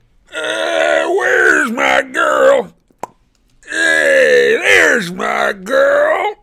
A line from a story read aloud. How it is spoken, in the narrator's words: Ares bellowed